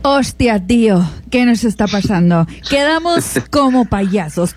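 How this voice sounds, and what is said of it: Put-on Spain Spanish accent. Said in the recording (Spanish): “tenía que empezar con ese acento español”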